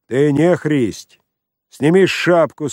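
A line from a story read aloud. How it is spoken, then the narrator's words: Rough, rude speech. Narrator (Russian): сказал грубо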